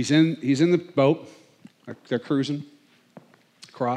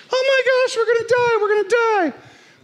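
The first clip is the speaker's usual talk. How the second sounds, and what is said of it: Panicked impression of another person. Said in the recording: “That's my impression of Peter, by the way. I think it's a pretty good one.”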